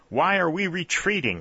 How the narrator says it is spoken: exclaimed Langdon angrily

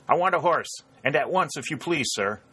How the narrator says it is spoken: Harry called in a loud voice

